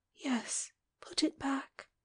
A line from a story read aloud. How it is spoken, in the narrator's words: she whispered